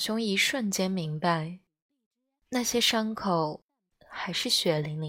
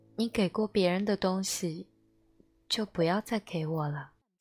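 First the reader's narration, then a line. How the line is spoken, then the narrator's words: Flat, calm. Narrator (Chinese): 淡淡的说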